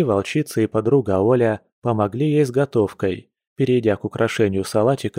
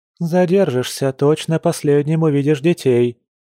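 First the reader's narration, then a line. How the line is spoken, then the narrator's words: Shouted after someone. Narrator (Russian): крикнула вдогонку Маша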